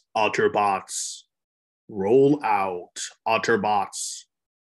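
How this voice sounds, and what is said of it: Optimus Prime character voice. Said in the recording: “do that Optimus Prime voice ... my impersonation of Optimus Prime”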